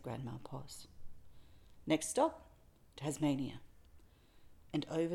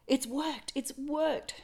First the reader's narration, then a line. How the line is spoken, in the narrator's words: she cried